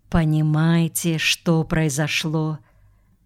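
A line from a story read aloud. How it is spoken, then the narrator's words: Whisper in ear. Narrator (Russian): Хорошев прошептал на ухо Сергею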